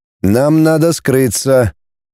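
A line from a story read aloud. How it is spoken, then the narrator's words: Monotone android voice. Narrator (Russian): мерным однозвучным голосом проговорил андроид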